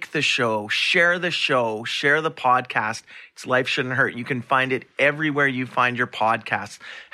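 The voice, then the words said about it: Hoarse, strained voice. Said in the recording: “I'm losing my voice. I've been losing it now for a few weeks”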